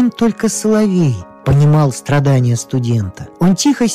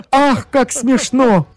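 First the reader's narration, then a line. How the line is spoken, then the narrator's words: Shameless cynical laughter. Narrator (Russian): маленькая ящерица, несколько склонная к цинизму, беззастенчиво расхохоталась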